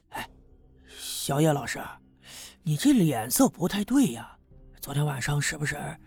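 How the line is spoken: Trailing off mid-sentence. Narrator (Chinese): 说到这儿，他停住了

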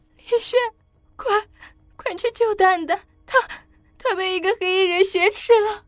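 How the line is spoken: Tearful voice. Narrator (Chinese): 小林熙却带着哭腔说道

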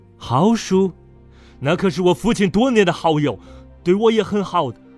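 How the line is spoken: Slightly angry. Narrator (Chinese): 他有点怒了

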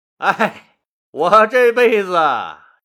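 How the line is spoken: Excited, laughing. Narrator (Chinese): 韩信这一激动就犯了二，大笑着对别人说

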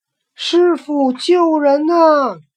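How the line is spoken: Calling again. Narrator (Chinese): 又叫

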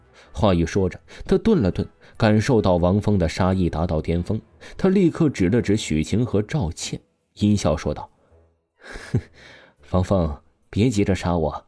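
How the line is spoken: Cold sneering. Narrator (Chinese): 赵天冷厉一笑，出声道

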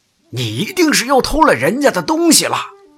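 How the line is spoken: Deliberately loud shouting. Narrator (Chinese): 他们又故意的高声嚷道

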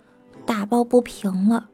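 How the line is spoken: Quietly. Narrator (Chinese): 男生小声地说

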